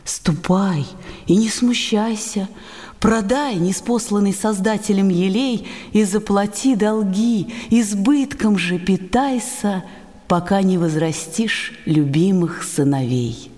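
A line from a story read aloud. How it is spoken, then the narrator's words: Gentle. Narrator (Russian): ответил ласково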